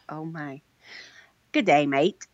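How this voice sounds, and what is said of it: Put-on Australian accent. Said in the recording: “Say good day, mate, in an Australian accent. ... That's pretty good.”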